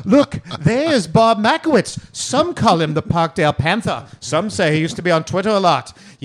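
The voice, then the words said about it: Shifting put-on accents, ending Australian. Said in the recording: “my accent become four different ones in once? ... I think you actually ended up Aussie.”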